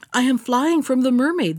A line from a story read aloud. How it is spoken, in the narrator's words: the prince answered in a quaking voice